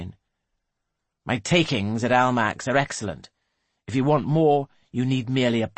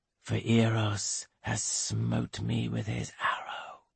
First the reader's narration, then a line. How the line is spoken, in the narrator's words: he whispers